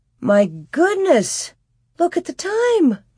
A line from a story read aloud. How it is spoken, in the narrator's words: Ma exclaimed